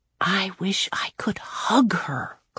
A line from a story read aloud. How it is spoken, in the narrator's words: Claudia whispered